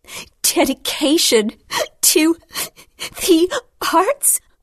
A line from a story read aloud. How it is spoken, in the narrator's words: said between breaths